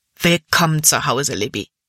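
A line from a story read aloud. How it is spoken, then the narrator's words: Plain. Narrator (German): sagte er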